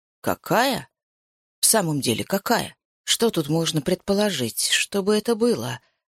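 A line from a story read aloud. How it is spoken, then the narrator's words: Puzzled muttering. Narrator (Russian): пробормотал Базиль Тихонович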